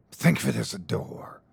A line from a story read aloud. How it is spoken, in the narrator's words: hissed the gatekeeper